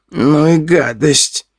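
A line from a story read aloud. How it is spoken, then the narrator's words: Groaned. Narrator (Russian): простонала мелочь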